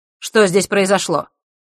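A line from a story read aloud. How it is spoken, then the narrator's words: Sharp question. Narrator (Russian): резким тоном спросил он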